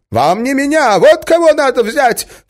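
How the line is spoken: Shout. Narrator (Russian): крикнул он

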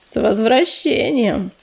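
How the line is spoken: Purring. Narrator (Russian): промурлыкал он

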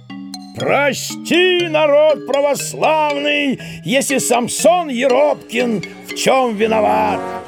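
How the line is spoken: Booming shout. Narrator (Russian): зычно крикнул

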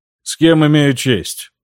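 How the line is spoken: Flat colorless voice. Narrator (Russian): спросил он бесцветным голосом

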